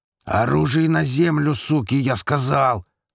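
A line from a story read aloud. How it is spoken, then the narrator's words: Huge man's bellowing roar. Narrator (Russian): проревел буйволом семифутовый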